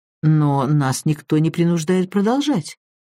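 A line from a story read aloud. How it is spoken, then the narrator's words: Uncertain remark. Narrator (Russian): неуверенно заметил Джайлз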